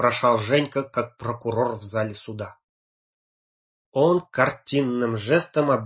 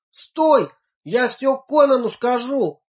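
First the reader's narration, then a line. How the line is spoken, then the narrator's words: Shouting after someone. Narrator (Russian): крикнул ему вдогонку Женька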